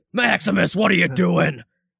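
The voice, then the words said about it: Gruff Batman-style angry dad voice. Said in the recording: “do that voice to my kid, like the Batman voice ... that is the dad voice. When you're mad at your kid, I do that voice.”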